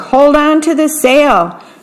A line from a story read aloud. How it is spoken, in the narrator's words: cried Jack as they battled a tropical gale